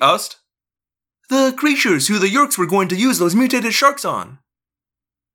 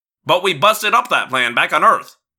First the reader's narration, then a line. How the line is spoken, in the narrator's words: Marco said impatiently